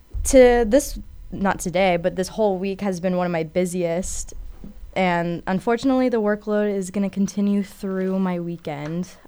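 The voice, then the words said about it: Congested, stuffed-up voice. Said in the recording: “with the fall season comes allergies, so I'm sorry if I sound super stuffed up right now”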